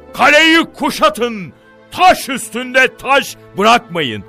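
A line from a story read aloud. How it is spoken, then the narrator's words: Angry command. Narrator (Turkish): diye emreder öfkeyle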